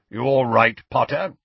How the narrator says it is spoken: grunted Moody

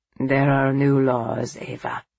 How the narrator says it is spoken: Santino said grimly

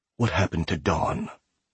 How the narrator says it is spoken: Dorian whispers into his ear

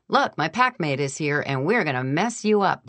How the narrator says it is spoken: He stopped snarling and started barking

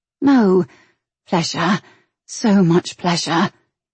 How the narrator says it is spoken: she gasped

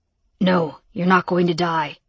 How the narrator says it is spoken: Yale growled

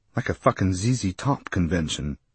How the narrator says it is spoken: Alan muttered darkly

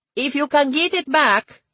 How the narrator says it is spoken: he shouted

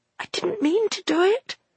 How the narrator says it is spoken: whispered Maggie

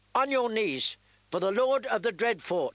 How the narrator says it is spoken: shouted his squire, a boy no older than Arya

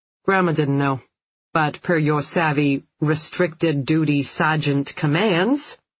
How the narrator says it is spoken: Phil uttered the words dryly

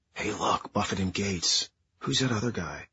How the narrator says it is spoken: whisper

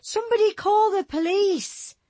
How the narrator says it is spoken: Barker started to scream behind the gloved hand

